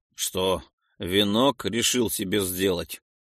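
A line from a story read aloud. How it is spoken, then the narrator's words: Snorted. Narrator (Russian): хмыкнул Айрекс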